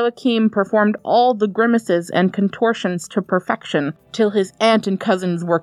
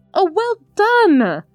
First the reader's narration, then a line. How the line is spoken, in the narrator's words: cried his mother